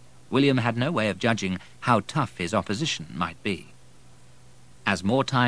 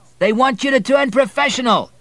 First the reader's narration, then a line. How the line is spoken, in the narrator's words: shouted from first base